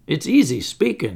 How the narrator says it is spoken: he moaned

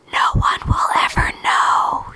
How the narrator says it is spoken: he whispered

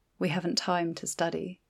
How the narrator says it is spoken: her aunt said gently

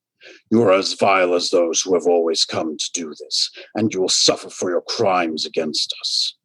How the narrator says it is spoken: the voice growled out, voice full of malice and righteous fury

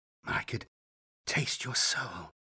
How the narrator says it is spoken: breathed

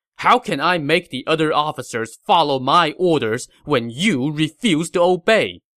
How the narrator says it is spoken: Xu Sheng said angrily

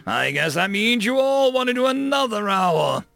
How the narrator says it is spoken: the drill instructor bellowed

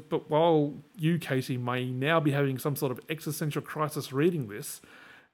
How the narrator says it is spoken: Danny says

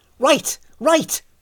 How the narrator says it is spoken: barked Tanisan

